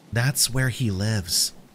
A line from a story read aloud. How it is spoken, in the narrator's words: she whispered